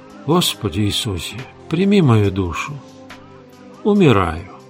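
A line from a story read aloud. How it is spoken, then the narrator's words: Awed muttering. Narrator (Russian): Она была так невероятно хороша, что Фабрицио пробормотал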